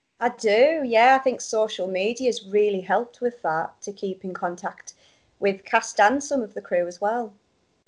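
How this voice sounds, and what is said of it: Northern English accent. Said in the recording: “Northern accent couldn't be missed”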